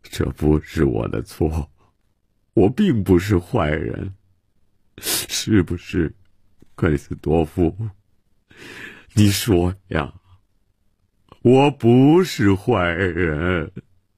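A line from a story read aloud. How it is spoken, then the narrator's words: Self-pitying lament. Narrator (Chinese): 曼西沃自怨自叹地说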